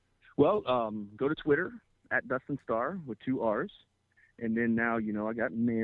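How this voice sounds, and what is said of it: Usual voice. Nothing is said of it.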